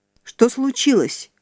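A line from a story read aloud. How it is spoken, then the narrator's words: Exclaimed. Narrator (Russian): воскликнул Клайд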